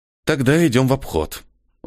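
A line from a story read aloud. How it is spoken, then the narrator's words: Irritated, through teeth. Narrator (Russian): раздраженно процедил Ниэль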